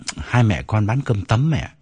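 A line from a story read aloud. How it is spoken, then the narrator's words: Suppressed sigh. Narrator (Vietnamese): Toàn nén tiếng thở dài trả lời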